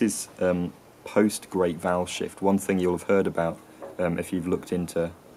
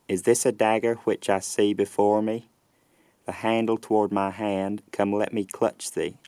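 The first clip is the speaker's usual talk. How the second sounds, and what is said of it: Generic Southern US accent. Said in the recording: “I'm going to read a little passage from Shakespeare in this generic Southern US accent”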